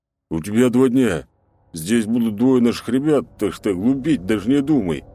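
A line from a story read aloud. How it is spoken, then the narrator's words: Deep bass voice. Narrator (Russian): пробасил мордоворот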